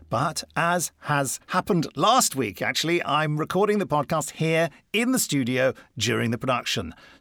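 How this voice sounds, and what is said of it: Upbeat, chipper presenter voice. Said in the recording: “your podcast voice ... it's very upbeat and chipper ... energising ... such dulcet tones”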